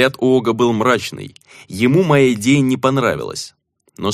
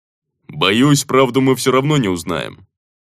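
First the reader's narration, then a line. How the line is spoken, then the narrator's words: Wry snort. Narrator (Russian): хмыкнул он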